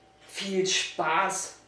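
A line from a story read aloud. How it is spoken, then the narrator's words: Grumbling. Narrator (German): brummte Fabian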